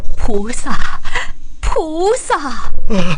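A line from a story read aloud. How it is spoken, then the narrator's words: Continuous crying out. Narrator (Chinese): 房屋主人两口子口中还叫个不停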